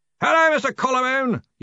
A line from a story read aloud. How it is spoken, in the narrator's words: yelled Ridcully